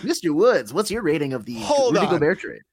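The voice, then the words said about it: Old-timey radio announcer voice. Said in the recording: “doing a Rocco Bonello impression right now? ... that, like, old-timey, like, radio voice guy”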